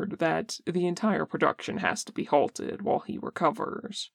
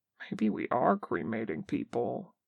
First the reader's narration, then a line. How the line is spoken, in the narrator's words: says Namjoon quietly